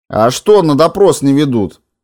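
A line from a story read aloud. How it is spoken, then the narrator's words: Loud question over noise. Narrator (Russian): спросил Морозов громко, перекрывало здоровый бодрый пердеж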